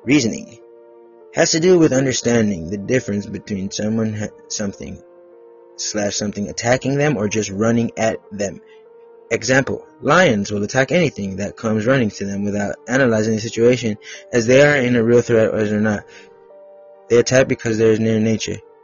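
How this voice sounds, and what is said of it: Changed accent for a character. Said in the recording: “I'm going to change the accent so you can differentiate when I'm doing Captain Jimmy”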